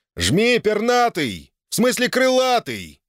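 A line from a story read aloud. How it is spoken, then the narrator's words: Yelling. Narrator (Russian): заорал Граут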